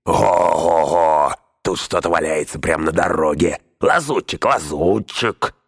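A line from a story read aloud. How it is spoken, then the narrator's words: Shouting over each other. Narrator (Russian): все перекрикивали друг друга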